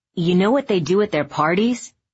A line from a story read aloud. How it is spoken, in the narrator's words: Steve said